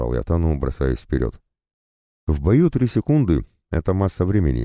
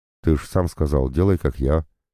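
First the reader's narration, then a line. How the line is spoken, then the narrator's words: Guilty mutter. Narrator (Russian): виновато буркнул Тан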